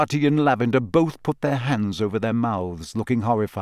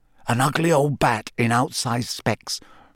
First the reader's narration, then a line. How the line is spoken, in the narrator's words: Ron muttered under his breath